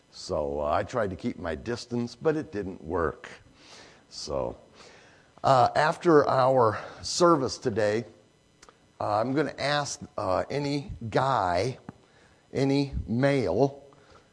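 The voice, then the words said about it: Raspy voice. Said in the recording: “my raspy voice ... she had the croup”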